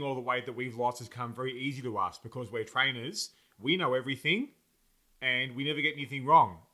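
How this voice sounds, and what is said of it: Slightly sarcastic delivery. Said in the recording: “my slight sarcasm just now”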